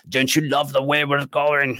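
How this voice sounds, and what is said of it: Imitates another person's voice. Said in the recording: “I need to work on my impression there.”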